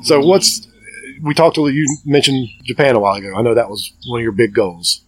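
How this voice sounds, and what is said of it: Southern American accent. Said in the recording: “I got a Southern accent ... Southern accents ... based on your accent? ... to me, you sound a lot like Bowman ... we're from both from Cleveland County.”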